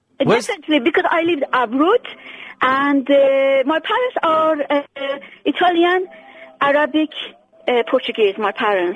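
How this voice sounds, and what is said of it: Non-British foreign accent. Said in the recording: “You don't have a British accent.”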